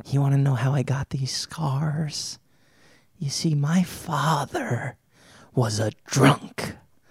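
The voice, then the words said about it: Nasal Joker character voice. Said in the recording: “My voice is all like nasally from the fires. I feel like I'm talking like the Joker ... that impression”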